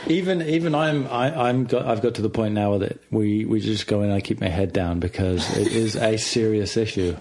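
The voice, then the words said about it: British accent. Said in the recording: “British. ... Extra British. ... his sweet sounding accent.”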